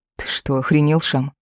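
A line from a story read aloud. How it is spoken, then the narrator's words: Stunned, breathless. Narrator (Russian): Выдохнула пораженно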